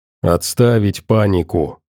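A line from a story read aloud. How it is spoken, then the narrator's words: Captain's growl. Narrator (Russian): рыкнул капитан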